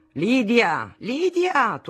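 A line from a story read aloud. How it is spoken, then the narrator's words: Thundering morning call. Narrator (Italian): tuonava al mattino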